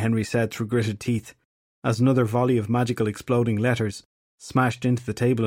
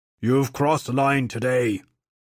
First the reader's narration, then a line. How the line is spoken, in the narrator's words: Dagda roared